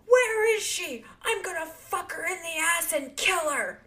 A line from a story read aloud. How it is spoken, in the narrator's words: yell